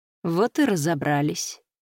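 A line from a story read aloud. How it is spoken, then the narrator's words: Grim. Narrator (Russian): мрачно произнес Скай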